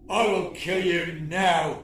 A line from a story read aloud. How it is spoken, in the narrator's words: he snarled